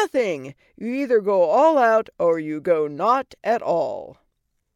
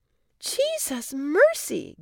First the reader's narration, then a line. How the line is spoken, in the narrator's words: gasped Cindy